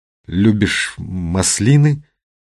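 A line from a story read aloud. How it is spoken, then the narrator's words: Forced out. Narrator (Russian): выдавил он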